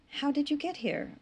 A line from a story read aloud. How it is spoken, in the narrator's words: Rachel asked quietly